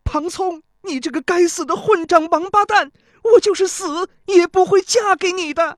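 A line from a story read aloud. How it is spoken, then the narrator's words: Loud furious cursing. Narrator (Chinese): 钟离秋高声骂道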